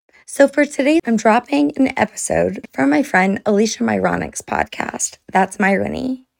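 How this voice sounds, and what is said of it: Hoarse voice from laryngitis. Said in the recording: “As you can hear, I have laryngitis.”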